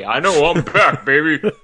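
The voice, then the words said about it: Imitates another person's voice. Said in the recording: “My best Ving Rhames impression.”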